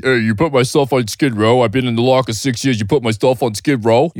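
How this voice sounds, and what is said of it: Raspy throaty movie-character impression. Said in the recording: “You got that throat thing down ... that's my only impression”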